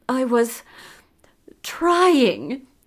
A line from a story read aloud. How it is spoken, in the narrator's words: he wheezed